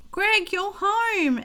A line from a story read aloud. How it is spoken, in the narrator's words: exclaimed Gloria